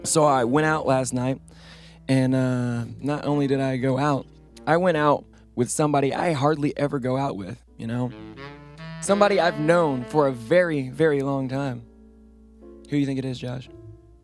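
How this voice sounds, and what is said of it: Messed-up, strained voice. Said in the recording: “My voice is all messed up today”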